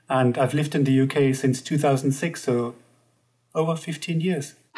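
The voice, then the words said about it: German accent. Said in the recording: “you might hear from my accent that I'm from Germany”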